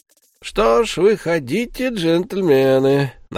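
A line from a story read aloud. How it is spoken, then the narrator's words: Mocking. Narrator (Russian): насмешливо произнес Джереми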